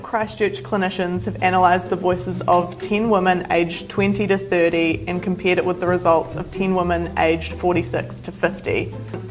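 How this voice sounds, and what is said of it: New Zealand English accent. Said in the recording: “she speaks New Zealand ... it's a strange dialect ... the ugliest form of English that's ever existed ... Back end Australian ... bad accent ... they would sound like a New Zealander”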